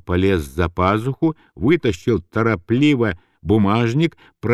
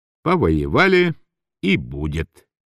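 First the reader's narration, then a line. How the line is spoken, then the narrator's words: Ironically calm. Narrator (Russian): прибавил иронически спокойно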